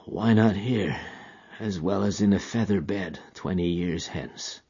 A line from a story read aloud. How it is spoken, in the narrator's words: he muttered